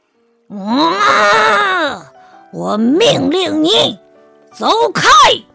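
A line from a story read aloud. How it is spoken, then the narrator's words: Lion's loud roar. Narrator (Chinese): 狮子大声的吼叫起来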